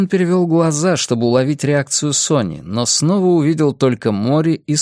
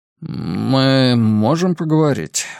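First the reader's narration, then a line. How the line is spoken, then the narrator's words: Forced out reluctantly. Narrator (Russian): в конце концов выдавил из себя Фабиан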